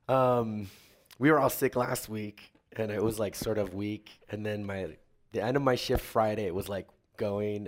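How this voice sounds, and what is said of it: Hoarse, mostly lost voice. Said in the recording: “I lost my voice”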